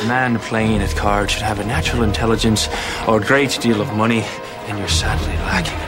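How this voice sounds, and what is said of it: Terrible put-on Irish accent. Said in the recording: “flashback to Ireland in 1800 whatever ... showcasing David Boreanaz's terrible, terrible accent. Work, so bad.”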